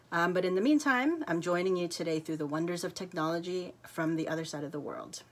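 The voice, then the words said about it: American accent. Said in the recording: “America, um, which is where I'm from, as you can tell by the accent”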